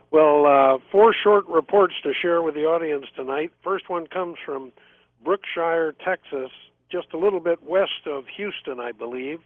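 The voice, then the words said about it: Hoarse voice. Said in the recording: “I'm a little hoarse tonight, have a sore throat”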